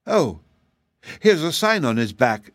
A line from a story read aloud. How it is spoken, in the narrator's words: cried Betsy